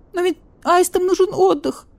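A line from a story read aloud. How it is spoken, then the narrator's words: Thin kittenish squeak. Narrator (Russian): Тоненько, как котенок, пропищал барсукот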